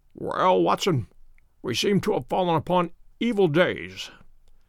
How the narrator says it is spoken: said he, in a feeble voice, but with something of his old carelessness of manner

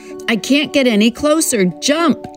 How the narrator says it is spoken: he shouts

